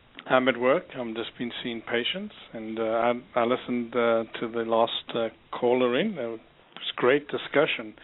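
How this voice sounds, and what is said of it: South African accent. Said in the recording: “the South African accent is actually very lovely. has a very nice accent.”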